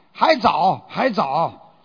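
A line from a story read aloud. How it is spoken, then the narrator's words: Loud answer. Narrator (Chinese): 高声答道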